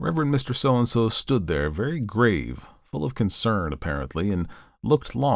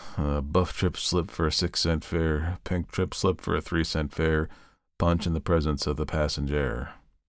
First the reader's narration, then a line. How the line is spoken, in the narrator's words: sighed wearily and murmured